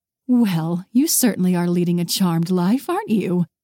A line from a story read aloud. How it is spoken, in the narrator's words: her mother said with a pleased chuckle